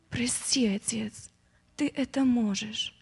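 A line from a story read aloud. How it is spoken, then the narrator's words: Barely audible repetition. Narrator (Russian): Сын Божий и еле слышно повторял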